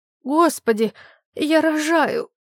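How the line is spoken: Moaning. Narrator (Russian): застонала Глаша из своего угла

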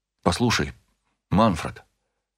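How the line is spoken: Quiet. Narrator (Russian): тихо сказал я

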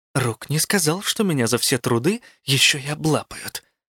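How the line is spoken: Hissing. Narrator (Russian): прошипела

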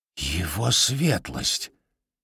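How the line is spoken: Whisper. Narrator (Russian): прошептал он

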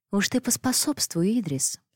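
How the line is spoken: Cooing, changed tone. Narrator (Russian): сменив тон, проворковала Агнешка

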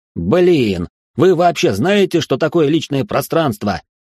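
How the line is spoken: Shouted through an opening. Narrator (Russian): прокричал Гордей в пролом

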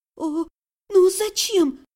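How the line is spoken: Pleading. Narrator (Russian): взмолилась я

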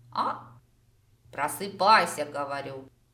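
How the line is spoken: Snorting chuckle. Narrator (Russian): Хмыкнул Харон

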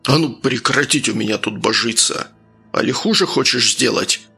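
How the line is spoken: Frightening bark. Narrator (Russian): Рявкнул Архип, пугая гостей

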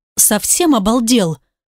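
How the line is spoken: Hissing. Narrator (Russian): Шиплю на него

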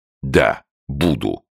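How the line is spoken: Plain. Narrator (Russian): ответил Беллами

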